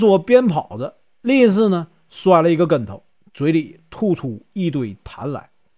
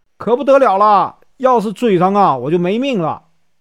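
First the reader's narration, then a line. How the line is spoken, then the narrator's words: Panicked shouting while running. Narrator (Chinese): 和尚跑到院中，看到有一个大鱼缸，就围着这个鱼缸啊转圈儿，嘴里喊着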